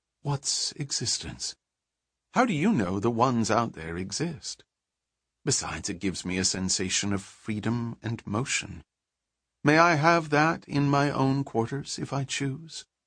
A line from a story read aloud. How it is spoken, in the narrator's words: Selene would shrug coolly and say